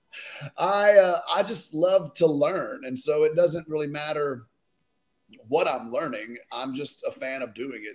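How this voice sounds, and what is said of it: Southern American twang. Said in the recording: “Obviously I'm Southern, that goes without saying. You can just hear twang”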